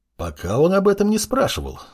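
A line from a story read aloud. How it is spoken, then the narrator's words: Thoughtful. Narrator (Russian): задумчиво произнес Магмагл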